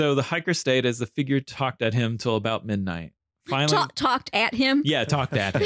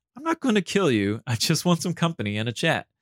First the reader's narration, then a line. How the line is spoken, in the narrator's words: The figure chuckled and said